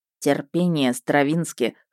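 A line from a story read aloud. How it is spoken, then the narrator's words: Smirking. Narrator (Russian): хмыкнул Мердок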